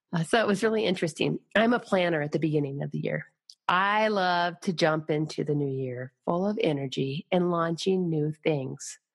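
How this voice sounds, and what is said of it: Deeper, husky voice. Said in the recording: “a bout of bronchitis ... you might notice my voice is a little deeper today, maybe a bit of a Demi Moore effect”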